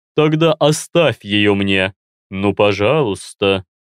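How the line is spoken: Drawn-out plea. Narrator (Russian): протянул морф

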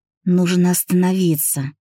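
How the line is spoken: Moaned. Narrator (Russian): простонал

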